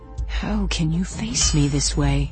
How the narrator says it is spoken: He breathed along my face, warm as silk

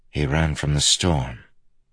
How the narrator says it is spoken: Kaladin said softly

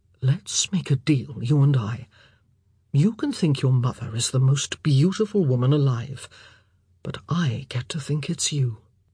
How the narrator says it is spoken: Philip leaning over to whisper in her ear

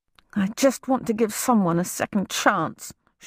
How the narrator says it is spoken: she mumbled

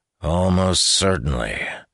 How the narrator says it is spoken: Tayris sighed

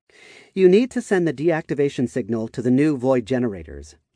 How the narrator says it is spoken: Chell said, in a firm tone

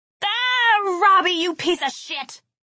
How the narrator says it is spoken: I yelled

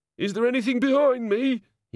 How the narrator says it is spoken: he quavered

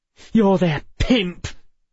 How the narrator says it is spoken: Emma spat

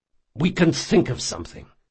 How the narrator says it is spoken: said Jean quietly and urgently

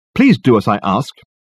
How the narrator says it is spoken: he snapped angrily

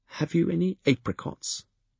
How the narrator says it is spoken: the fool asked me in a wavering voice

